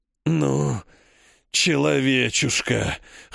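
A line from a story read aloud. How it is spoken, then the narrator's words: Hoarse monstrous rasp. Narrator (Russian): хрипит дымящийся монстр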